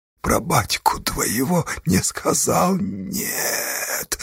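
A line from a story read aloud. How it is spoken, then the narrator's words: Wheezing. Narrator (Russian): сипел Флегонт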